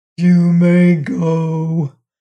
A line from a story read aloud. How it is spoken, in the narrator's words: grumbled the giant